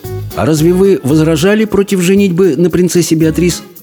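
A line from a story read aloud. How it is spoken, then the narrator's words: Plain. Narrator (Russian): спросил Абдулла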